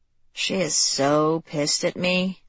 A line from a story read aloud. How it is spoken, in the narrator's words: Lexi murmured